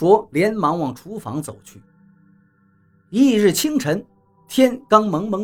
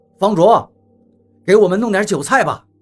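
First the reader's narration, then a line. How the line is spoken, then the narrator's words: Calling out. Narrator (Chinese): 王八喊道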